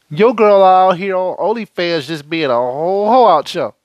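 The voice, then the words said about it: Put-on New Orleans accent. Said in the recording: “I had to use my whole New Orleans accent.”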